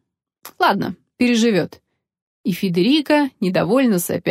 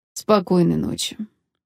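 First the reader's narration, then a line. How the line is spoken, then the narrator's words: Gloomy captain's reply. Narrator (Russian): мрачно ответил капитан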